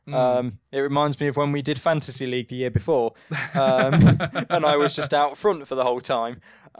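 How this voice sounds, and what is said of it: British accent. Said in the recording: “we're Europeans, as you can tell by our accents ... We're British”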